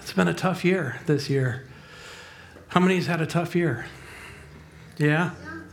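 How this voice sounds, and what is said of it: Hoarse voice. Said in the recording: “I'm a little hoarse... I really am a little hoarse”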